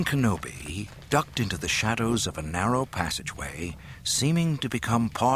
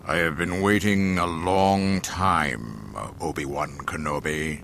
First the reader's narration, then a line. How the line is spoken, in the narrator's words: Darth Vader intoned solemnly